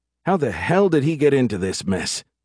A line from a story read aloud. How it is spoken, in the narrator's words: Nert sighed